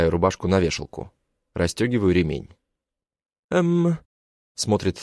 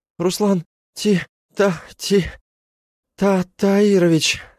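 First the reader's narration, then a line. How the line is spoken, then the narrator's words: Stammering. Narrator (Russian): Запинается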